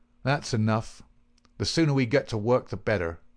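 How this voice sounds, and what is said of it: Surly, grumbling character voice. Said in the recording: “in a surly voice”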